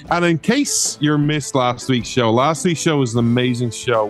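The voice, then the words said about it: Noticeable regional accent. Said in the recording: “you come for the accent”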